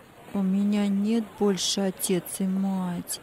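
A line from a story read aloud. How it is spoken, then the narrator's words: Answered sadly, by a boy. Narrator (Russian): печально ответил мальчик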